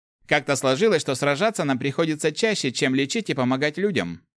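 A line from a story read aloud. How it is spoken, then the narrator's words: Displeased grumble. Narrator (Russian): недовольно проворчал парень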